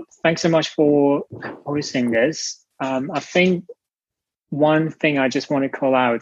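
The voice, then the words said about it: Non-native English accent. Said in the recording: “I apologize for my accent. I'm not from here”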